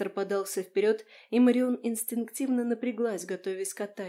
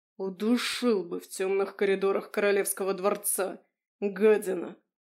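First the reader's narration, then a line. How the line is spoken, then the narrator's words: Growling. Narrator (Russian): Зарычав, Марион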